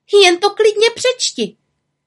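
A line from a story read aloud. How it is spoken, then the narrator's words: Little witch crying out. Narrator (Czech): vykřikla malá čarodějnice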